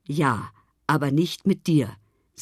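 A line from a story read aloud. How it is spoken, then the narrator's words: Plain, grandfather. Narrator (German): sagte Opa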